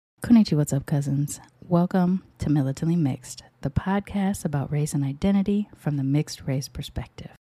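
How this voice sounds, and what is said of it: Smooth monotone, scratchy throat. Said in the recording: “I'm trying to talk in this smooth, melodic monotone right now because my throat is kind of scratchy”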